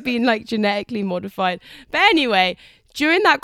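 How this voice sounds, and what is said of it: Usual voice. Nothing is said of it.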